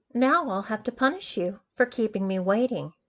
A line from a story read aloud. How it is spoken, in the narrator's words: sighed